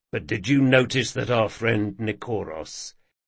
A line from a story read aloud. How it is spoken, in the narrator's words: said Jean in a much lower voice